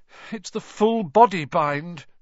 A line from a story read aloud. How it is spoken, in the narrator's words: said Hermione miserably